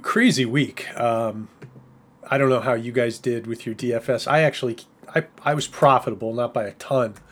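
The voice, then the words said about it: Strained voice cutting out. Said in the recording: “my voice is already cutting out here”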